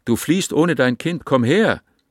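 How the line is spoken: Called out. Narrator (German): rief

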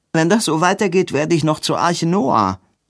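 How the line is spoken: Calling out. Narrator (German): rief

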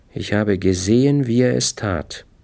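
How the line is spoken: Calm. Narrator (German): sagte Eileen ruhig

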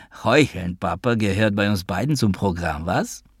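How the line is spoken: High bleating laugh. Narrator (German): Der Rabbi lachte hoch und ziegenhaft

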